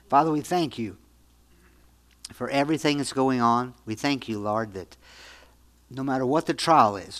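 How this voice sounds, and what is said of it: Strained, failing voice. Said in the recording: “I'm losing my voice right now”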